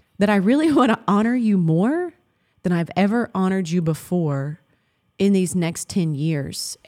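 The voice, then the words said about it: Emotional, voice breaking. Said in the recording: “Oh my gosh, I'm getting emotional.”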